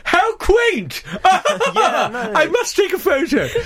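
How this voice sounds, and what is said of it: Braying posh middle-class voice. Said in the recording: “sort of braying middle-class people”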